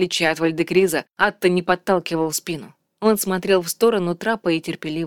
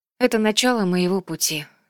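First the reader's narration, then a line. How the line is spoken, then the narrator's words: Sighing. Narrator (Russian): вздохнула Асин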